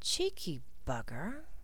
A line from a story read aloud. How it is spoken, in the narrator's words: muttered Blaze